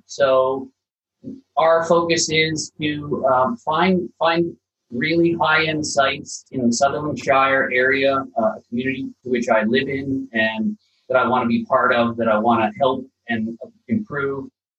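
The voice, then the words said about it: Slight non-Australian accent. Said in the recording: “I can spot a bit of an accent”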